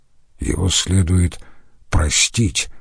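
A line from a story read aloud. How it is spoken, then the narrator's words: Quiet. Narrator (Russian): тихо сказал Штайнер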